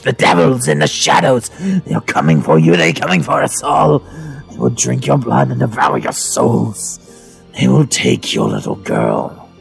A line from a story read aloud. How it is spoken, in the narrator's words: screeched